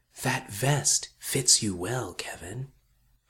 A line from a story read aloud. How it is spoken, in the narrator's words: It whispered